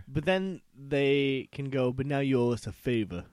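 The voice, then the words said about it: Put-on mafia gangster accent. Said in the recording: “that's my mafia accent”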